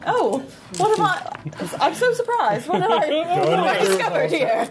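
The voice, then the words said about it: Put-on British accent. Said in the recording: “Are you giving her a British one”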